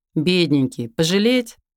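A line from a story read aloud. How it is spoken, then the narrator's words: Feigned laugh. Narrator (Russian): наигранно рассмеялась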